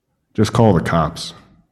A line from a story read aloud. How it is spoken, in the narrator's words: man said